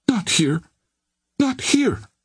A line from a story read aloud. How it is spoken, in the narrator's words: pleaded the girl